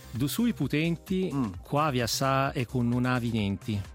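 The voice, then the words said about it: Exaggerated Sicilian accent. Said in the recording (Italian): “lo rileggerei con un tono più siciliano, se riesci. Dagli ancora un po' più di corleonese”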